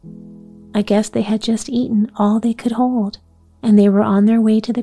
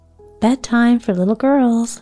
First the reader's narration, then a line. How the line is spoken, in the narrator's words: Ma said cheerfully